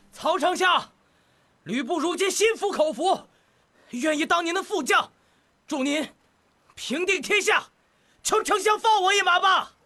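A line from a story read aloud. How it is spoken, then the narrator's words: Loud. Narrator (Chinese): 吕布大声说道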